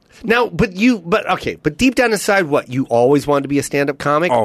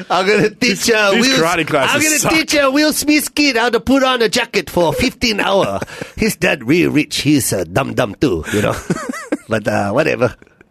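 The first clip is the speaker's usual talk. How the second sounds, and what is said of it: Mr. Miyagi character accent. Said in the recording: “I love Mr. Miyagi. ... Good accent.”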